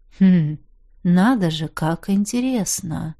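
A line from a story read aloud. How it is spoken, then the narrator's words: Thoughtful drawl. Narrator (Russian): Задумчиво протянул я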